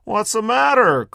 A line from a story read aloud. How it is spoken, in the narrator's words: cried the drunk